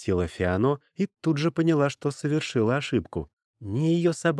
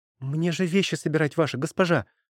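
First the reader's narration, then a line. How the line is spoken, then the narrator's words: Hurried chatter, suppressed hatred. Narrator (Russian): торопливо затараторила она, с трудом пряча волной нахлынувшую ненависть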